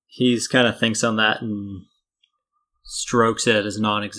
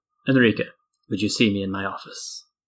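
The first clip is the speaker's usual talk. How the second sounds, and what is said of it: Noble-sounding character accent. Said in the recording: “in that sort of like noble accent”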